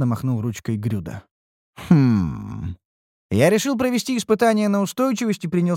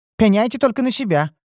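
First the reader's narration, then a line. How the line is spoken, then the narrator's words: Mage's snort. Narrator (Russian): фыркнул маг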